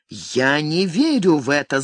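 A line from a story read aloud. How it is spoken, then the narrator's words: Angry shout. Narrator (Russian): злобно вскричала она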